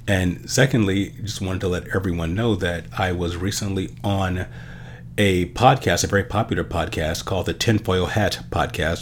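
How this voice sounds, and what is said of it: Nasal, congested voice with sniffing. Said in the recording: “apologize for my voice if I'm a little nasally or if I'm sniffing even more than usual. I'm getting over a cold”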